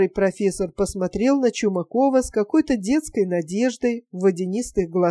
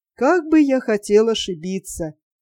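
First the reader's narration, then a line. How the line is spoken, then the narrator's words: Sighing. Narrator (Russian): Нил Игнатович вздохнул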